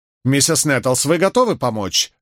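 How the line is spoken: Sharp question. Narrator (Russian): резко спросил доктор

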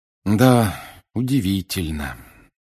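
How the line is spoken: Heavy sigh. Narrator (Russian): тяжело вздохнул Гарри

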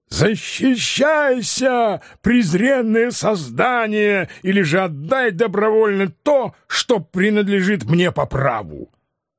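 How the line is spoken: Furious shout. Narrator (Russian): Дон Кихот, не умеряя ярости своего натиска, крикнул

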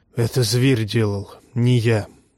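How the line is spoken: Hoarse whisper. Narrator (Russian): хриплым шепотом сказал Воромир

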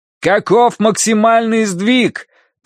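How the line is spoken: Shouted into phone. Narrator (Russian): прокричал Данорти в трубку

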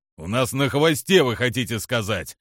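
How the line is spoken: Snapping. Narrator (Russian): огрызнулся Киллари

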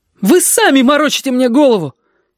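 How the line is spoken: Desperate defiant shout. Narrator (Russian): Ёжики крикнул это с дерзостью отчаяния

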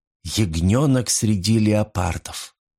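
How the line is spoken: Whispered. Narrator (Russian): прошептала Фурия

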